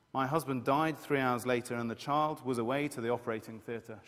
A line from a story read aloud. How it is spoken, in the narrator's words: she says